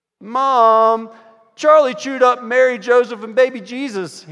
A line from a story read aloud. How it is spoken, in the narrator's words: he shouted